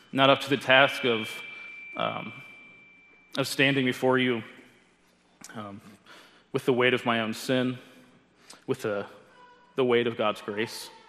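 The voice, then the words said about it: Emotional, halting voice. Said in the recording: “I'm going to be a little emotional, I think, through this, just maybe because I'm sick”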